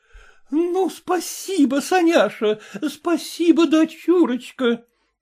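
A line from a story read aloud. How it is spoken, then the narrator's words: Joyful. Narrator (Russian): говорила она радостно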